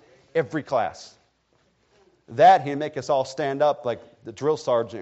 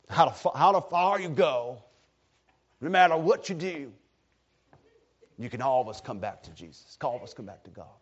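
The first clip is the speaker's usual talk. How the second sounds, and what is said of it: Raspy Eastern North Carolina accent. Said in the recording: “Getting a little more Eastern North Carolina in the accent ... this raspy voice”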